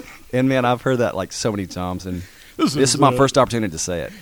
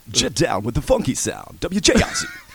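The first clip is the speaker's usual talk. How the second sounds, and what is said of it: Professional radio DJ voice. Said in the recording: “It's the voice. ... he's got the radio voice ... you've got the professional radio voice.”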